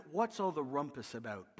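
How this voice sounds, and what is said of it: Upper-class English accent. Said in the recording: “saying this in an upper English accent”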